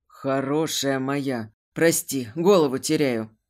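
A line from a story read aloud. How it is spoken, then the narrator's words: Hoarse werewolf growl. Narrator (Russian): хрипло рычал оборотень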